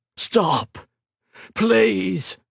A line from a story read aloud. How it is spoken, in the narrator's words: begged the veteran